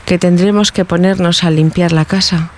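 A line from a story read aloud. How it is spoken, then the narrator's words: Regretful tone. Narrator (Spanish): dijo Juanita con tono pesaroso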